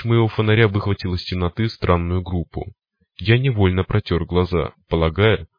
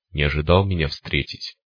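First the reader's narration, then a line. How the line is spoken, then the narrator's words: Monster's smirking grunt. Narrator (Russian): хмыкнул монстр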